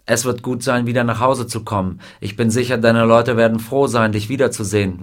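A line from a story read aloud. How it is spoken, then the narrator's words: Plain. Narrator (German): sagte der Colonel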